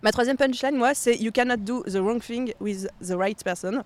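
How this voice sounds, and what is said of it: French-accented English. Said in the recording (French): “Désolé pour euh, mon accent anglais.”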